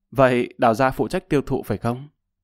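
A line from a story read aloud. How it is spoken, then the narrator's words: Cold laughing voice. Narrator (Vietnamese): Lập Văn Vinh lạnh lùng cười nói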